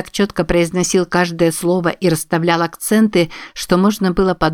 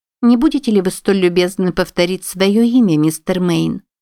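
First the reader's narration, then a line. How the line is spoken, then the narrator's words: Plain. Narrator (Russian): сказала мисс Хазард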